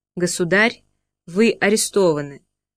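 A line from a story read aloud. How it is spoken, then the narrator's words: Calm reply. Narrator (Russian): отвечает спокойно Беннингсен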